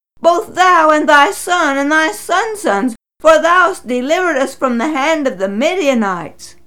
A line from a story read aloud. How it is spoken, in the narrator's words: shouted